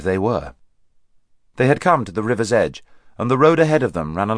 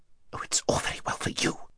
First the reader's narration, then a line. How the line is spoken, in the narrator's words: whispered Haravis rather savagely